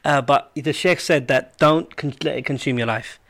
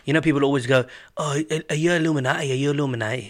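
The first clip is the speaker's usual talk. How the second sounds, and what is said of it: Put-on northern English accent. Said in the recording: “I said that in a northern accent”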